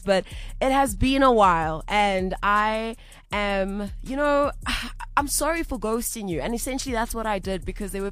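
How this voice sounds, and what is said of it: Raspy voice. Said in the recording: “I'm recovering from the flu, so forgive me for my raspy voice”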